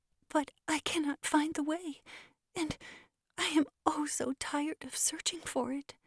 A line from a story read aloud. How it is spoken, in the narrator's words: said the child, with a sob in his voice